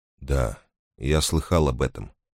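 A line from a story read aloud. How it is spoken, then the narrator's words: Mutter. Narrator (Russian): пробормотал он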